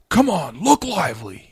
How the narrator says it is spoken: he yelled

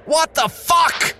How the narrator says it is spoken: David screamed, stumbling back

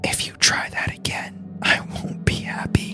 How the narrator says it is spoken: he ... whispered

